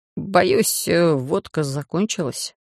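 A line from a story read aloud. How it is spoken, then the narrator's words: Embarrassed boy mumbling. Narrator (Russian): сконфуженно пробормотал парнишка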